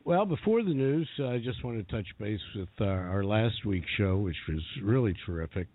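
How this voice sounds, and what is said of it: Congested voice from a cold. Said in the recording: “You're hanging in there with your cold. ... You got a great radio voice, though.”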